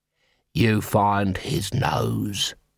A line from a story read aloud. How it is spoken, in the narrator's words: he hissed